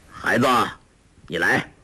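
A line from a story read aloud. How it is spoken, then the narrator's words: Calling out. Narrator (Chinese): 成吉思汗叫道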